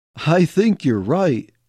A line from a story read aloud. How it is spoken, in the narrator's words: chuckled Jake